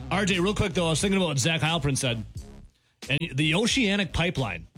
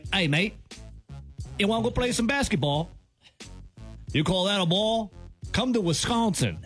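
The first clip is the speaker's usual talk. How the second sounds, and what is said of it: Wobbly put-on Australian accent. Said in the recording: “I can't even keep my accent straight.”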